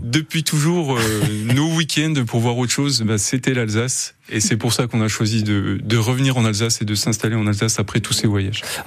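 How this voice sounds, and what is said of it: Franc-Comtois regional French accent. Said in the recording (French): “C'est pour ça que j'ai un accent. ... Ah, vous êtes un franc-comtois.”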